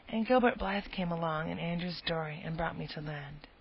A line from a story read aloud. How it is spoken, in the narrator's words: explained Anne wearily